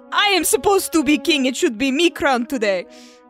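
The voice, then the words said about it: Put-on accent for a character. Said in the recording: “I don't know whose voice that was, but ... has an accent now.”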